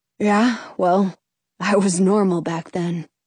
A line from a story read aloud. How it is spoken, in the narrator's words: says wistfully